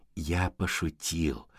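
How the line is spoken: Calm. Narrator (Russian): спокойно сказал Леопольд

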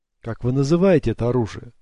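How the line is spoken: Plain. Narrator (Russian): спросил он

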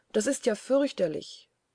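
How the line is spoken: Called out. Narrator (German): rief Marie

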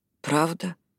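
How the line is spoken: Quiet question. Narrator (Russian): тихо спросила Эшли

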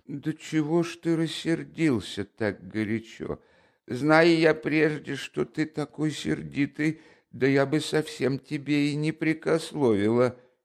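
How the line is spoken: Almost pleading. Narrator (Russian): По крайней мере, она произнесла уже почти просительным голосом

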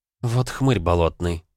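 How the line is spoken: Through gritted teeth. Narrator (Russian): процедила сквозь зубы Жанна

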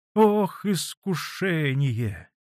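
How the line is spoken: Heavy sigh. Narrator (Russian): тяжело вздохнул Василий Борисович

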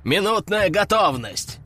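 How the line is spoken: Growled. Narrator (Russian): прорычал Кардиналов

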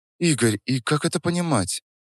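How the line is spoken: Quiet question. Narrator (Russian): Тихо спросила

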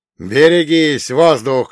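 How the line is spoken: Shout. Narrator (Russian): крикнул я

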